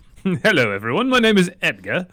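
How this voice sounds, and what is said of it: Bad fake British accent. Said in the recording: “British ... accent ... probably the most offensive ... like Bert from Mary Poppins. That was really bad.”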